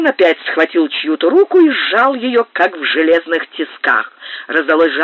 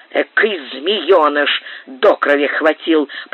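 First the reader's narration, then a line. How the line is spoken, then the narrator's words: Grumble. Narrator (Russian): проворчал Пэдди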